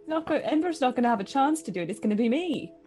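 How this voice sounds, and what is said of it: Speaks with a noticeable accent. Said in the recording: “make fun of my accent”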